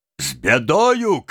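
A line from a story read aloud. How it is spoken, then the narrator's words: Man shouting from afar. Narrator (Russian): кричал с парома приземистый казак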